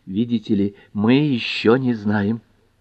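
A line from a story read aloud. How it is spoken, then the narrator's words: Whisper. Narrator (Russian): прошептала мисс Эйкин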